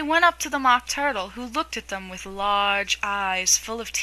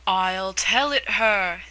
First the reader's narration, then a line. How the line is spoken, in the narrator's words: said the Mock Turtle in a deep hollow tone